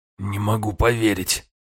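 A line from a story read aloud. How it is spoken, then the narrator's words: Strained wheeze. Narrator (Russian): кое-как просипел Афанасий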